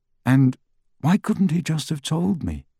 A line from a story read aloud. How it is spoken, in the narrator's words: Harry said quietly